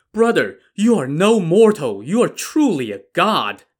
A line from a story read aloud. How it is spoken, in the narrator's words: Shien exclaimed, backed up by a chorus of agreement from the inmates